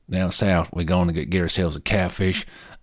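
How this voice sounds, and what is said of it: Put-on deep Southern American accent. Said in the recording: “I'm not going to do an American accent. Certainly not a deep South American accent. I just cannot attempt.”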